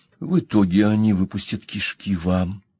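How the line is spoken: Calm remark. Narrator (Russian): спокойно заметил Пол

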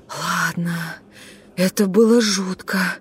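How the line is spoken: Whisper. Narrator (Russian): прошептала Амилия

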